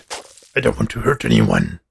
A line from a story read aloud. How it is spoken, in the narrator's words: Abe growled